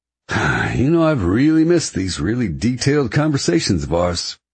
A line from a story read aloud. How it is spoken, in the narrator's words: Preppy says with an exaggerated sigh